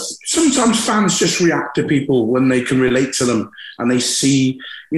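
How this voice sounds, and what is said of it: West Country English accent. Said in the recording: “West Country accent ... I'm a thoroughbred Scotsman with a West Country accent.”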